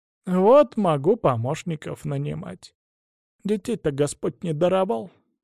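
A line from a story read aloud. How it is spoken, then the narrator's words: Sad sigh, elderly woman. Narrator (Russian): грустно вздохнула бабушка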